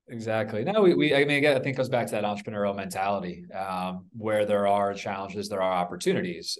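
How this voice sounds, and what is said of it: American accent. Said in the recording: “Being American, ... people can't from the accent.”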